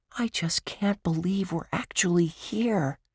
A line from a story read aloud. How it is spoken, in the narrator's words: Josh whispered with awe